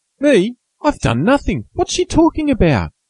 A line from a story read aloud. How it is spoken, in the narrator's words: cried Joe, bewildered